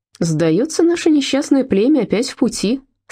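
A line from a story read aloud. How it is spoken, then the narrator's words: Forced cheerfulness. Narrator (Russian): сказала Фрида, стараясь, чтобы вышло бодро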